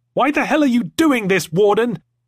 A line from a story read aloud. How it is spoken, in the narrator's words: yelled Sternall